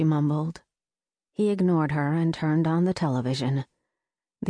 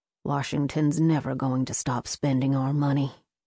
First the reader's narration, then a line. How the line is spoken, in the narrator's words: her father muttered